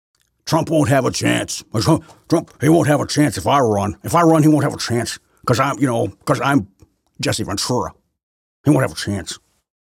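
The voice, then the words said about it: Poor imitation of another person's voice. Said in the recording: “that's a bad impersonation”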